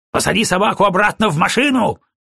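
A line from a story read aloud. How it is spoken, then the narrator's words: Shouting. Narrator (Russian): крикнул Броуди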